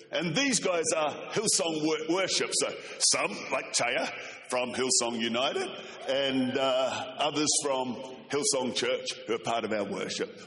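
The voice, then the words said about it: Strong foreign accent. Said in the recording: “I hope you can understand my accent. ... in heaven, everyone speaks like this. ... I sound like Bruce the Shark from Finding Nemo.”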